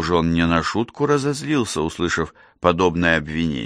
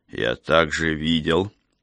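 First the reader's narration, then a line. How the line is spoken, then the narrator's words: Quiet but stern. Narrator (Russian): проговорил он тихо, но строго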